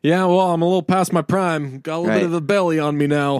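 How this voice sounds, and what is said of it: Imitates another person's voice, lightly southern. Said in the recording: “That's my Denzel impression ... just like lightly from the south.”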